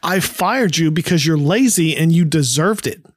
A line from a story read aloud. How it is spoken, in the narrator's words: Marcia yells back